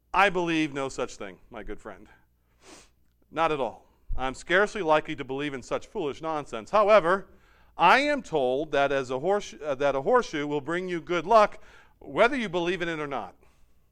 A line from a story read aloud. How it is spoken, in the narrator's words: Bohr chuckled